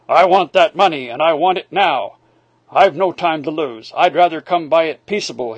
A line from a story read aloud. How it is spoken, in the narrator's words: he growled